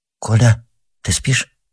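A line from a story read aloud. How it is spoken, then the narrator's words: Timid. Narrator (Russian): сказал кто-то робко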